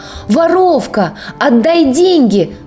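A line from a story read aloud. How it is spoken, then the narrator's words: Desperate shout. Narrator (Russian): закричал бедняга Альчиде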